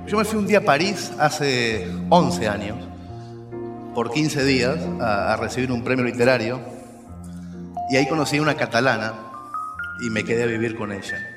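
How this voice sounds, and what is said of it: Unusual mixed Spanish-language accent. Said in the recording (Spanish): “Ustedes van a notar en mi voz que tengo un acento que es un poco raro, porque hace 10, 12 años que vivo en España.”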